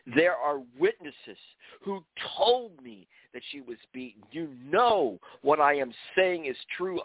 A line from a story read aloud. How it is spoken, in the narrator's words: Amjad shouted